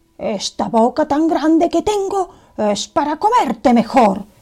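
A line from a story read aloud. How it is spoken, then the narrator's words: Wolf shouting loudly. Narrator (Spanish): gritó con fuerza el lobo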